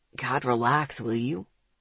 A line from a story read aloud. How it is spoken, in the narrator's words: Isaac grumbled